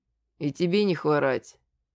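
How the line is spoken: Calm. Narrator (Russian): произнес спокойно я

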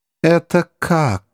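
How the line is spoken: Stony voice. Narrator (Russian): спросил президент каменным голосом

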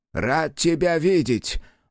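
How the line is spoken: Breathless relief. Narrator (Russian): выдохнул, чудом избежав смерти

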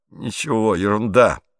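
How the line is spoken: Muttered. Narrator (Russian): пробормотал Пьеро

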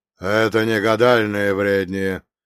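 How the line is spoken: Heavy dawning realization. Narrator (Russian): выдохнул он наконец, и его голос звучал так, будто он сам лишь сейчас осознавал всю тяжесть этих слов

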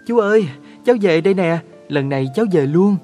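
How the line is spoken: Joyful child's cry. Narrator (Vietnamese): cháu đã reo lên hớn hở

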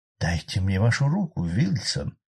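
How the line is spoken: Whisper. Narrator (Russian): прошептала мисс Мэри

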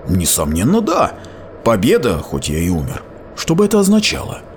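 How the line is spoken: Whisper. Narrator (Russian): Он понизил голос до шепота

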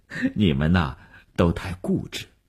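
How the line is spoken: Smiling. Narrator (Chinese): 吴晓笑了笑说

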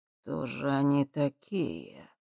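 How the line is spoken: Thoughtful muttering. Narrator (Russian): задумчиво пробормотал он

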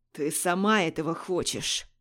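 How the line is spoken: Man growling. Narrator (Russian): зарычал мужчина

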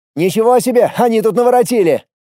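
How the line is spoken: Shouted while running. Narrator (Russian): крикнул на бегу Костя

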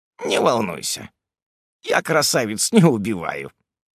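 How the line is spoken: Short chuckle. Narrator (Russian): хохотнул

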